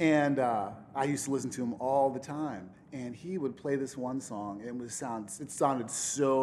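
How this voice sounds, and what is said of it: Usual voice. Nothing is said of it.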